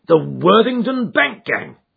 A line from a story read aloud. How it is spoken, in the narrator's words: cried the inspector